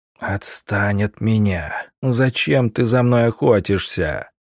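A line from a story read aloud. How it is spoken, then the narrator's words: Whispering. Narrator (Russian): зашептали Верховному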